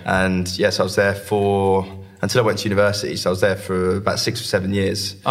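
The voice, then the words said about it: Southern English Essex accent. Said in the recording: “my accent is probably still much more southern than it is from either Scotland or the Midlands ... I recognise the Essex accent straight away”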